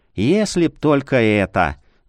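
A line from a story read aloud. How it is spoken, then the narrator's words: Sighing. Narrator (Russian): вздохнул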